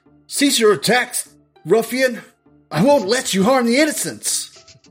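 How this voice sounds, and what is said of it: Yelled heroic character voice. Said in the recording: “he's yelling,”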